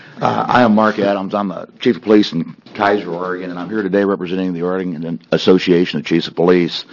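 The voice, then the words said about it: Changed, unwell-sounding voice. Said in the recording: “excuse my voice this morning. I woke up with a new one.”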